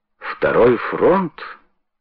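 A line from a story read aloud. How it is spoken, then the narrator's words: Thoughtful repetition. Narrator (Russian): задумчиво повторил Уилки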